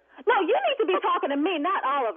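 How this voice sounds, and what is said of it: Raised, angry voice. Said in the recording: “Don't raise your voice at me.”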